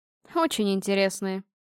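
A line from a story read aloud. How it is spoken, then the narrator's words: Sarcastic. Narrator (Russian): язвительно ответила я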